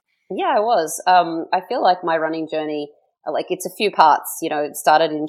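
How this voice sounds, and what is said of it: Slight Australian accent. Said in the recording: “We could tell maybe there's a little bit of an accent there. You're not originally from Canada, right? ... I grew up in Australia”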